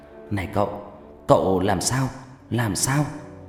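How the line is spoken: Panting young man. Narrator (Vietnamese): Người thanh niên thở hổn hển

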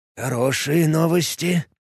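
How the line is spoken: Muttering. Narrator (Russian): пробормотал он

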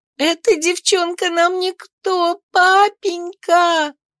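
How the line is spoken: Sobbing. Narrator (Russian): всхлипывала она

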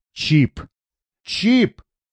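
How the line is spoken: Vicious close growl. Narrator (Russian): злобно зарычал прямо в лицо

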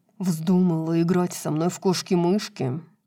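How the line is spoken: Growling. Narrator (Russian): зарычал Хант

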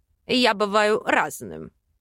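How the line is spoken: Amused snort. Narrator (Russian): хмыкнул он

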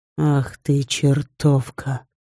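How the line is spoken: Close breathy whisper. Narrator (Russian): прошептал Женя, щекоча дыханием мою шею

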